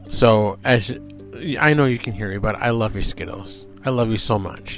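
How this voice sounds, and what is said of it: Choked-up, emotional voice. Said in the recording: “as you can hear, I'm getting a little choked up”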